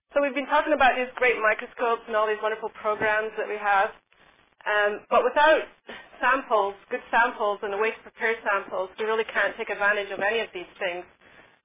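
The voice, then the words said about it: Congested voice with a cold. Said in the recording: “I have a bit of a cold, so if I'm sounding weird, or if I have to sneeze”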